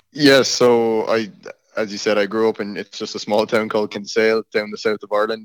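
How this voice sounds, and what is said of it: Irish accent. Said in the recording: “this guy's got an accent. That's different... You're Irish.”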